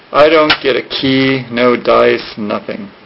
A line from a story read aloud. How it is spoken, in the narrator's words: he murmured